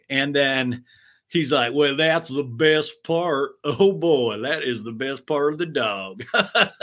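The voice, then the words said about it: Put-on Texas accent. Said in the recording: “I don't know why I'm still doing a Texas accent. I'll try to stop, but it is just so infectious.”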